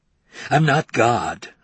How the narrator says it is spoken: Mondale said bitterly

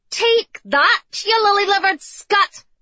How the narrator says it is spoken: Gracie shouted

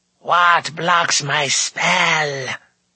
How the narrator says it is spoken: cried Morda in a terrible voice

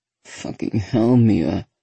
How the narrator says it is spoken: moans

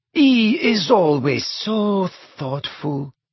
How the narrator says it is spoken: purred Fleur adoringly

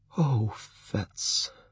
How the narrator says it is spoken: she said quietly

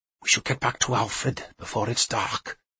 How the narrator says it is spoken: Peerling whispered

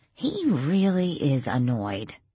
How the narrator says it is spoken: Danielle muttered

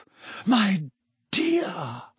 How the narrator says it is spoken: Professor Trelawney breathed

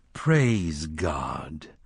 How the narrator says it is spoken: the congregation drained, spoke it solemnly

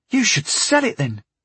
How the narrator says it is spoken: he exclaimed enthusiastically

